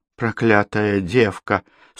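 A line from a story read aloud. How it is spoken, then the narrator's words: Teeth-chattering mutter. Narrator (Russian): стуча зубами, пробормотал Хуль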